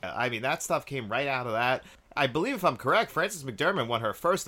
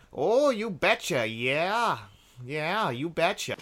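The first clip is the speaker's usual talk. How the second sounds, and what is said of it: Put-on North Dakota accent. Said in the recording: “That's where we all kind of learn that North Dakota accent.”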